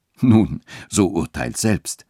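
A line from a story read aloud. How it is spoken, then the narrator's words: Amused clergyman, laughing tone. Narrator (German): sagte der Geistliche mit lachender Miene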